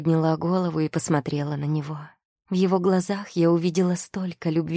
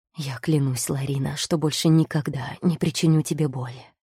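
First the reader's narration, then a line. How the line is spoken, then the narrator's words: Whisper in ear. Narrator (Russian): прошептал он мне на ухо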